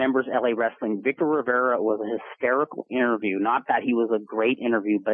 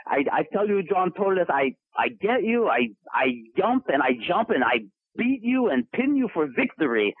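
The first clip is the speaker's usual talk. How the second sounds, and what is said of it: Bad impression of Victor Rivera, broken English. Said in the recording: “his English was broken ... I'm doing a terrible impression of it”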